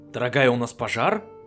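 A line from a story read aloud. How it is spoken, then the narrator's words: Loud question from hallway. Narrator (Russian): громко спросил жеребец из коридора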